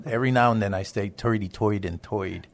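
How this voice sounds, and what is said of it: Brooklyn New York accent. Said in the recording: “lived in most of my life in Brooklyn, New York ... If anybody might be able to pick up some of my accent”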